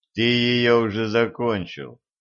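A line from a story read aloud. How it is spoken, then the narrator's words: Gloomy. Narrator (Russian): мрачно сказал ему Денис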